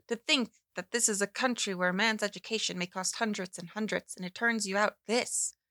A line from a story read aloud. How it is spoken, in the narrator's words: he exclaimed snarlingly